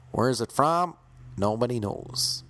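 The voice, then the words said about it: Put-on southern American accent. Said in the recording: “put on an American accent ... this is the American accent I have off the top of my head ... That's my southern accent.”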